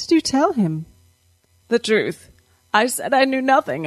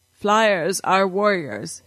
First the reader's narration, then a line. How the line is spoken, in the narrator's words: he said